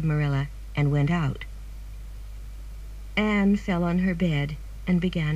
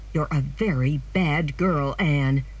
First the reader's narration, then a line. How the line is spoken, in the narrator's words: Marilla said angrily